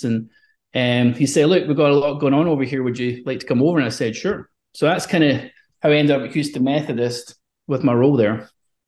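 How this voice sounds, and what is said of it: Scottish accent. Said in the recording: “who is also Scottish, as you probably tell by the accents”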